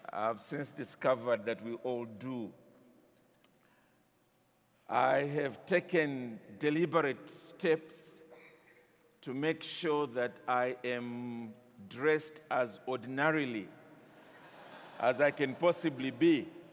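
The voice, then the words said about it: Non-American accent. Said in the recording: “my accent might have the opportunity to adjust. I thought only Americans had an accent.”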